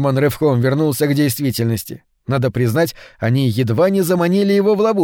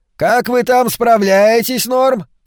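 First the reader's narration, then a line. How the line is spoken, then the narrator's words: Shouted. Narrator (Russian): крикнул ее муж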